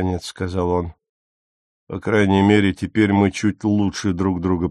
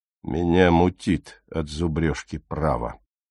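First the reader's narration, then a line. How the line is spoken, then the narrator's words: Gloomy. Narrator (Russian): мрачно сказал Стоун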